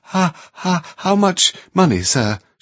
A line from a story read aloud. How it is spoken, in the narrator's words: she faltered